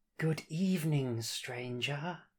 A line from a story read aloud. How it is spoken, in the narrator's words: he says in a thin, velvety voice